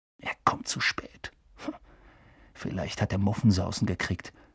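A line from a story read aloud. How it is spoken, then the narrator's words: Whisper. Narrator (German): flüsterte Ron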